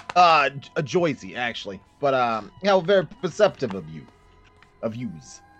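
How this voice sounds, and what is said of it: New York-style accent. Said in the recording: “I was just commenting on your accent. You're very interesting. From New York?”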